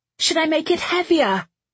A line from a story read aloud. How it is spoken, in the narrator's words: she shouted at Vale, her voice barely carrying above the howling of the air and the tortured noise of the metal struts